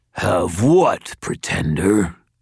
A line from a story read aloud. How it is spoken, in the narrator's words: the skinwalker growled